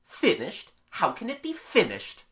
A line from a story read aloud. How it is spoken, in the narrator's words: the plumber demanded scornfully